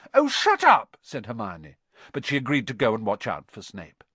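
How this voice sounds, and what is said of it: Usual voice. Nothing is said of it.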